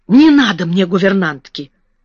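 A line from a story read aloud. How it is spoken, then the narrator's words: Sharp. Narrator (Russian): резко сказала Мэри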